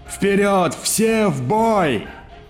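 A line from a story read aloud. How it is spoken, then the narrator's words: Shouting. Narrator (Russian): он прокричал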